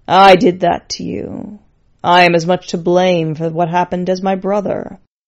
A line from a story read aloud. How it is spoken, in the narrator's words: as she was retching up her breakfast of fruit, the skull said in a low, depressed tone